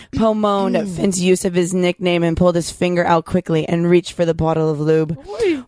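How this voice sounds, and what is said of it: Put-on sexy voice. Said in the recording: “sexy voice ... My sexy voice.”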